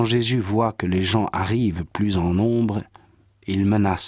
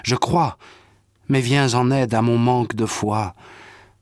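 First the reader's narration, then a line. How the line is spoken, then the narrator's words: Father's cry. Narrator (French): le père de l'enfant s'écrie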